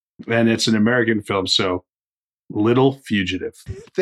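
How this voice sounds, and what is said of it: American accent. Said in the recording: “excellent American accent that he has going on there”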